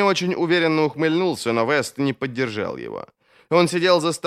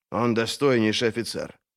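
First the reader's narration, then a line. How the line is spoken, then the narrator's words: Joyless mutter. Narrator (Russian): безрадостно пробормотал Поулдер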